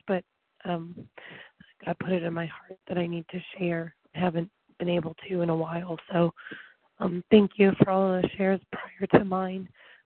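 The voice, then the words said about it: Hoarse, fading voice. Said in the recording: “I apologize, I'm losing my voice”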